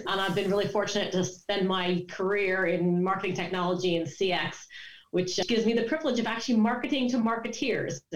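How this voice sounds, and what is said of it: British-sounding accent. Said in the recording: “contrary to my accent, I'm a displaced Californian who's been living outside of London for the best part of 20 years”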